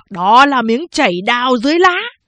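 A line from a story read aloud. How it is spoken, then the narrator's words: Loud praise. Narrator (Vietnamese): Quan Lưu Tình, một tay biết võ, lớn tiếng khen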